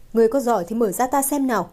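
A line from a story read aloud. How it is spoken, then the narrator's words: Cold snort. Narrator (Vietnamese): Hắn hừ một tiếng lạnh lùng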